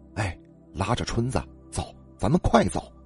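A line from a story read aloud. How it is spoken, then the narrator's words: Urgent whisper. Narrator (Chinese): 周大富小声嘀咕，但又很急促的叫着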